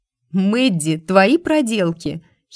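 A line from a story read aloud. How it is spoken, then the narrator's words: Giggling. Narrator (Russian): хихикнула я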